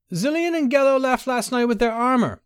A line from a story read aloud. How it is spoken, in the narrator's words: cried Gorkith through the door